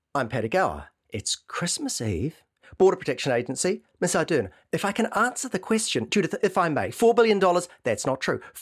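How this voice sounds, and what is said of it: Imitates several other people's voices. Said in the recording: “my impression of the second leader's debate”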